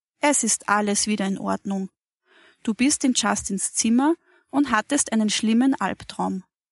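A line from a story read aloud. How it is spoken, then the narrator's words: Calm voice. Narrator (German): Frau Mattis sagte mit ruhiger Stimme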